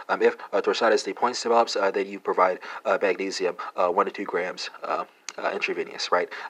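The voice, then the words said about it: Texas accent. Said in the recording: “Texas accent is you know, uh, sneaking in here”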